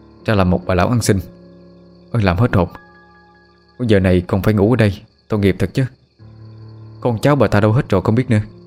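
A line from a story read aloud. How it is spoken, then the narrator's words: Exhaling, muttering. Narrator (Vietnamese): Người thanh niên thở hắt ra một hơi, miệng lẩm bẩm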